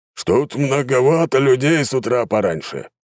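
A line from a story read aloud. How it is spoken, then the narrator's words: Booming displeased male voice from below. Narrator (Russian): прогремел недовольный мужской голос снизу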